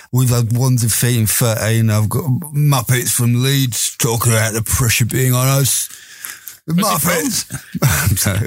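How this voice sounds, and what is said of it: Imitation in a Cockney accent. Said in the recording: “Why is he a Cockney?”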